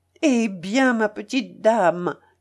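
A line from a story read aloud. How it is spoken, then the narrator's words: Kindly priest exclaiming warmly. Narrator (French): s'écria le bon curé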